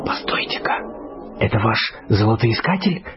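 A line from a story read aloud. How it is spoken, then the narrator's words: Whispered question. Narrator (Russian): шепотом спросил Боб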